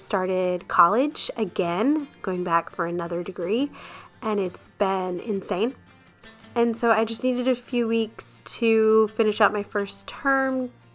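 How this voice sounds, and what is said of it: Congested voice from a cold. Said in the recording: “I have a little bit of a cold that you're gonna hear in the intro and the outro”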